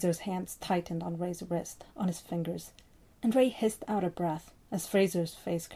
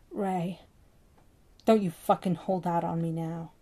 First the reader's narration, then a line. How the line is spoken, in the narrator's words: Ray growled down at him